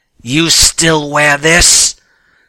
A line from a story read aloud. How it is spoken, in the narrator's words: the guard yelling